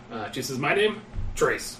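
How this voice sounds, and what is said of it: Character voice with an accent. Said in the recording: “Say it without the accent.”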